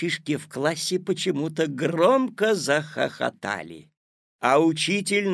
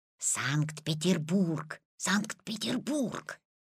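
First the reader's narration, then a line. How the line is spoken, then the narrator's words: Elderly whisper. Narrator (Russian): зашептал Петин прапрадедушка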